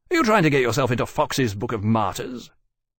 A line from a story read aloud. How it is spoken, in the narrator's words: Temeraire snorted angrily